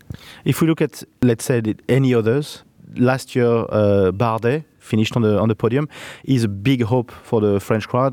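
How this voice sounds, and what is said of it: French-accented English. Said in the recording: “you guess with my accent”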